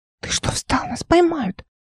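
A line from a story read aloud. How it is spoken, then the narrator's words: Trembling child's whisper. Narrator (Russian): Дрожащим голоском прошептала маленькая Эл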